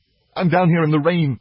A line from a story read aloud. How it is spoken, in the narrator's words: I sobbed, aloud as well as silently